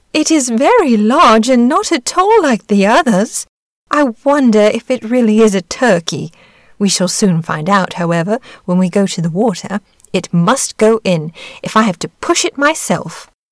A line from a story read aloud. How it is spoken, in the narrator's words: The duck exclaimed